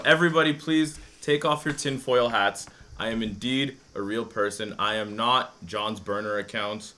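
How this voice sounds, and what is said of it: Speaks with a pleasant accent. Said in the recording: “This is not a nasally Australian accent, ladies and gentlemen. This is a beautiful accent”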